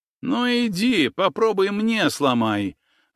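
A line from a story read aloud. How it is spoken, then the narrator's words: Nasal voice, broken nose. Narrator (Russian): выдал тот гнусавый, у которого был переломан нос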